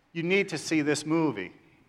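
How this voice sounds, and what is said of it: Put-on New York accent. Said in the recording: “with a New York accent.”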